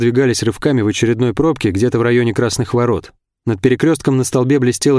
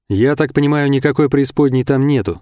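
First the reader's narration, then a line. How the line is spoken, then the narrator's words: Plain. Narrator (Russian): сказал я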